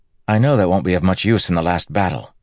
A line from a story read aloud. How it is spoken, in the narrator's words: Matt said quickly